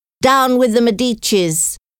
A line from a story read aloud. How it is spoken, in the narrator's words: The rebels ... They shouted